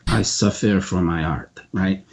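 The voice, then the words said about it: Bad put-on French accent. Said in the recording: “my French accent, my best French accent, which is really bad”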